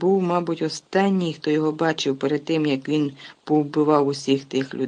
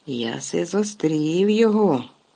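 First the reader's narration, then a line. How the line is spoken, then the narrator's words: Hoarse wheeze. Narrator (Ukrainian): хрипів Гегріт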